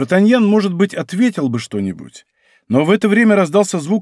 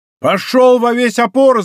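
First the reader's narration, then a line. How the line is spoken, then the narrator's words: Shout. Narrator (Russian): закричал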